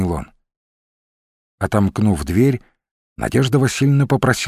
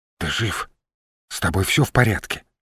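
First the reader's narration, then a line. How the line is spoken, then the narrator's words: Frightened whisper. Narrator (Russian): пугливым шепотом спросила она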